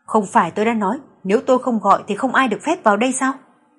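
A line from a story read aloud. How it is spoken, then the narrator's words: Irritated, raised voice. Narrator (Vietnamese): Tâm tình Tưởng Huy Âm rất tệ, liền cao giọng nói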